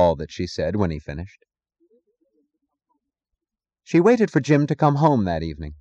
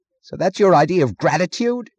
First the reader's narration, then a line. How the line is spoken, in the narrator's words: screamed